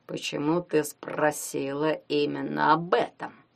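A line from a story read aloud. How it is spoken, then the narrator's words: Hoarse. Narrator (Russian): хрипло произнес тренер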